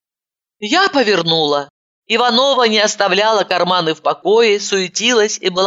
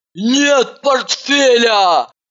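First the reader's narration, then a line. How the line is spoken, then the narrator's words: Hysterical scream. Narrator (Russian): истерично закричала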